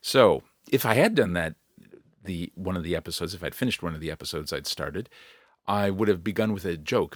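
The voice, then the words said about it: Slightly scratchy, tired voice. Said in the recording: “my voice is a bit scratchy”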